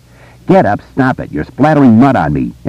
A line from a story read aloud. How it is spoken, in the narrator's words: Eddie cried